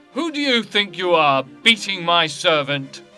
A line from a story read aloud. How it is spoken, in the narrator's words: Tranio shouted at Vincentio